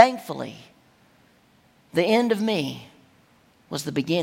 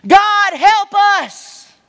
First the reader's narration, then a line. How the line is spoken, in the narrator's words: I cried out